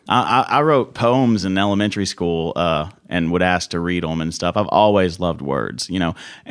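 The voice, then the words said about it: Southern American accent. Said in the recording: “Got that Southern charm ... people with my accent”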